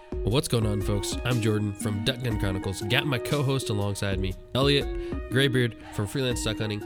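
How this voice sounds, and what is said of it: Gruff, congested voice from a cold. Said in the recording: “Got a cold, got a Kleenex shoved up my nose right now ... my voice is a little gruff”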